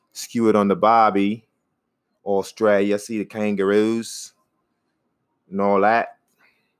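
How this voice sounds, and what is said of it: Attempted Australian or New Zealand accent. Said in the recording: “I don't know if this is an Australian accent or a New Zealand accent, or if it's not even an accent at all ... it's the best I can do right now”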